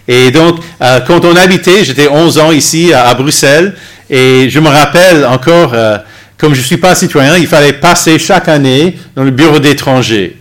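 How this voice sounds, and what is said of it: Slight American accent in French. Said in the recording (French): “Vous entendez sûrement un léger accent qui n'est pas tout à fait belge. Je suis d'origine américaine.”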